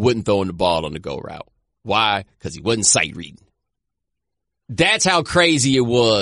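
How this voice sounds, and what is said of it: Usual voice. Nothing is said of it.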